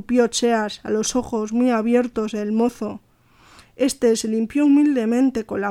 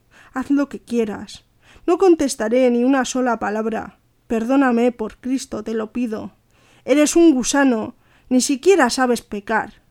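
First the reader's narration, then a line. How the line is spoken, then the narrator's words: Contemptuous shout. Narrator (Spanish): gritó Cheas con desprecio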